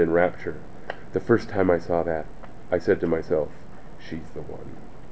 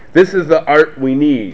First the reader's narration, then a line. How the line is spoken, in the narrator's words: cried Dietrich